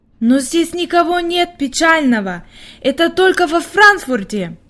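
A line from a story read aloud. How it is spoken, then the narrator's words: Exclaiming. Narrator (Russian): воскликнула Хайди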